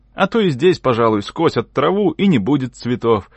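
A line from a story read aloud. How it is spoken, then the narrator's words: Cheerful shout. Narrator (Russian): закричал я, весело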